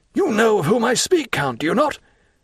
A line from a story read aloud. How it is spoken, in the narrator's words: Monte Cristo uttered the last words with so much meaning